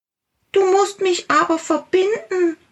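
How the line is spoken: Small creature calling. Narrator (German): rief der kleine Tiger

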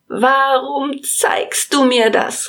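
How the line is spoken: Calling out. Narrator (German): rief

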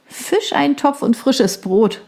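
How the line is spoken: Laughing. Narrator (German): lachte sie

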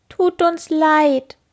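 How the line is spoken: Sad, trembling whimper. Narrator (German): jammern die Käfer betrübt und zittern

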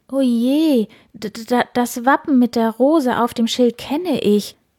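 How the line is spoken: Shocked stammering. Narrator (German): stammelte Elisabeth mit weit aufgerissenen Augen

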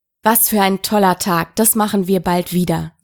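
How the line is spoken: Plain. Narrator (German): sagte Manfred

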